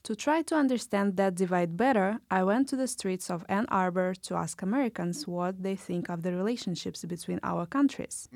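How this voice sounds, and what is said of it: Russian accent. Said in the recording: “You have an accent. ... Oh, you are from Russia.”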